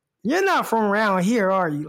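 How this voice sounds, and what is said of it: Put-on Southern country accent. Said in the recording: “You gotta hear their accents, man ... the deeper you get into the country, and there's some country people in Arkansas ... You got that down pretty good, though, dude. That sounds pretty legit.”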